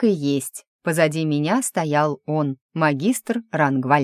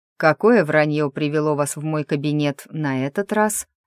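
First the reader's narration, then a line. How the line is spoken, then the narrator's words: Calm question. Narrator (Russian): Спокойно осведомился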